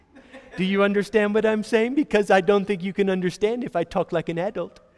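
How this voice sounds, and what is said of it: Condescending tone, as to small children. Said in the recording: “I'm going to talk to you like you're little children ... I'm going to condescend”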